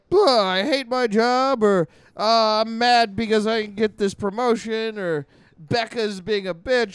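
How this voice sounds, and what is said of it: Imitates another person's voice. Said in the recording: “did an impression of your own significant other the way you do an impression of anybody else in the world ... I'm doing a vague impression.”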